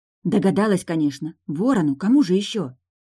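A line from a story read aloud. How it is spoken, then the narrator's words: Lowered to whisper. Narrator (Russian): Пришлось понизить голос до шепота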